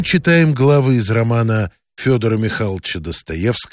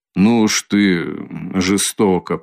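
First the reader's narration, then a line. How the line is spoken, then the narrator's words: Muttering. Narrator (Russian): пробормотал Никодим Фомич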